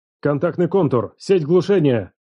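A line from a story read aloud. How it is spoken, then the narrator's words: Barked command. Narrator (Russian): рявкнул старший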